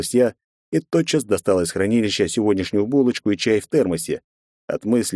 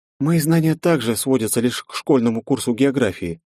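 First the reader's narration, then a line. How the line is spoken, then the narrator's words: Sad sigh. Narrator (Russian): не сдержавшись, я печально вздохнула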